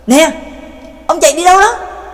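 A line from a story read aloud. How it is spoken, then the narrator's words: Anxious loud shout. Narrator (Vietnamese): Trác Mộc Cường Ba vẫn không yên tâm, vội chạy theo sau và hét lớn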